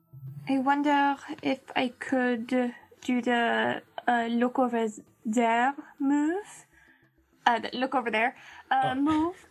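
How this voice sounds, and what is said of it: Accent slipping into speech. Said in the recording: “my accent is kicking in a weird way”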